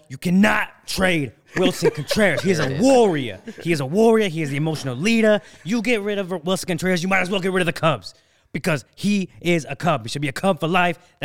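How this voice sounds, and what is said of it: Imitates another person's voice. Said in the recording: “I'm going to have to do my best impression of that”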